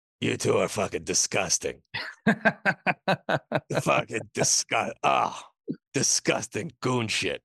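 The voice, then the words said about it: Good impression of another person. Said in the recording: “That's a good Vinny impression. I like it.”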